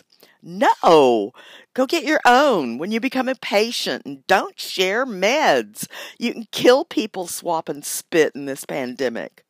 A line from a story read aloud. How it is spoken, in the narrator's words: laughed indignantly and said in my most discouraging teacher's voice